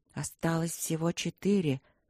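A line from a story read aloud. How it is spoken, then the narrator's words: Quiet. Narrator (Russian): сказал кто-то тихо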